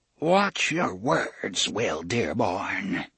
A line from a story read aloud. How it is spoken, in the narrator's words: he said in a low, hoarse voice